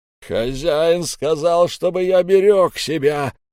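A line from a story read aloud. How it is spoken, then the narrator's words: Big man bellowing. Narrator (Russian): заорал здоровяк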